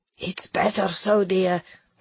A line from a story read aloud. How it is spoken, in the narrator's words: whispered in Greek